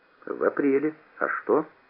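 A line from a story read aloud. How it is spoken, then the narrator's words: Calm and unsuspecting. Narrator (Russian): Не подозревая подвоха, я сказал спокойно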